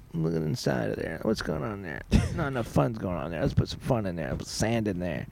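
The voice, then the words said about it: Voices a beach as a character. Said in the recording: “impersonating beaches”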